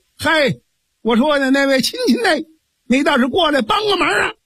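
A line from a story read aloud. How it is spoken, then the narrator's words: Shouting. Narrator (Chinese): 江平喊了这么一声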